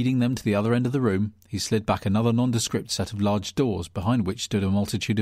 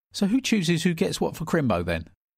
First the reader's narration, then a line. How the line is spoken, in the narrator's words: chirpily asked